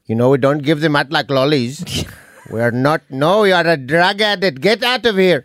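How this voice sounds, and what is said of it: Put-on Indian accent. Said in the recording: “just like doing an Indian accent.”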